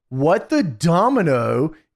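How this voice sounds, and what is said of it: Stewie Griffin impression. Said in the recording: “in your best Stewie Griffin voice.”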